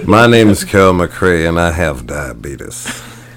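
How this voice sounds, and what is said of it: Deep, sexy southern-western voice. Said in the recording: “Like a southern or western ... Lean into the deep one more. ... That is a sexy voice.”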